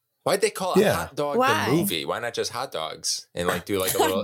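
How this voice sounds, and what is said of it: New York accent. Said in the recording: “A real New York accent when you said that”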